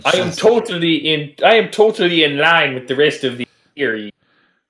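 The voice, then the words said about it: Deteriorating put-on accent, Australian-Texan. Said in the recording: “Your accent's slowly deteriorating. ... It's now Australian by way of Texas.”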